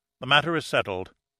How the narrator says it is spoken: stated Carl firmly

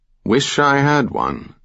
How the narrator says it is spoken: Sam replied

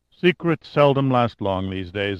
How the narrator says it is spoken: Antonov said with a sigh

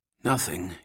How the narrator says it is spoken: muttered

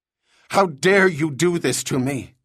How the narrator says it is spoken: Kyle shouted

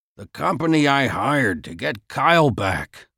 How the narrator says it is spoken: Max mumbled

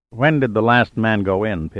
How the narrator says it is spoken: Pitt asked

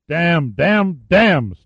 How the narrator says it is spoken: Steiger snarled

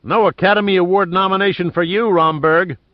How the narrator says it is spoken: Giordino yelled at the dog

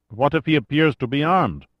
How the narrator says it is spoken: Rojas sighed

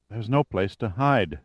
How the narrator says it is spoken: said Lauren, her voice not quite steady

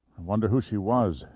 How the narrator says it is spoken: Giordino panted curiously

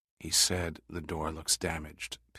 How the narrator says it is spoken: Pitt whispered

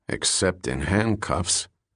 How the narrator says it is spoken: A water cop muttered back

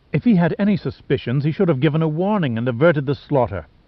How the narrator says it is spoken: she snapped

